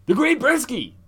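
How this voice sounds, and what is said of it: Deep character voice. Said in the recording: “I'm using a deep voice for him”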